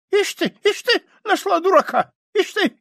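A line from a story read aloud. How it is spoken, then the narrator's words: Distrustful squeak. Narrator (Russian): Сидор ... недоверчиво ... пропищал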